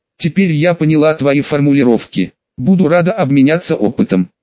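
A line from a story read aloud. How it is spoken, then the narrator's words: Sighing speech. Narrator (Russian): Шаоюй вздохнула и сказала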